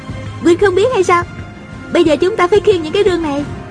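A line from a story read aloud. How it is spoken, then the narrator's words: Giggling. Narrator (Vietnamese): A Cửu cười khúc khích nói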